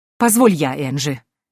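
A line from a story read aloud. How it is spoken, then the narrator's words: Irritated interruption. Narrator (Russian): Раздраженно перебила ее графиня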